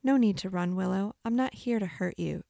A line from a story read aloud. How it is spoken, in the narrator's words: Flora assured, her voice so calm anyone may have assumed she'd done this before